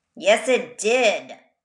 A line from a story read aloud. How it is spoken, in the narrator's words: growled Jefferson Bear